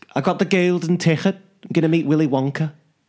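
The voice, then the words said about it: Put-on Liverpool accent. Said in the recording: “Do you want me to do a Liverpool accent ... It's not bad, actually ... You are good at your voice ... Is very good”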